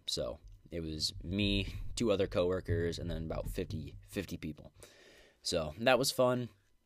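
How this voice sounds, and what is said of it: Rough, congested voice with sore throat. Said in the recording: “my voice is kind of 50-50 ... still coming out of that cold that I had ... my throat has just been a little sore lately ... I just got a bunch of crap in my throat”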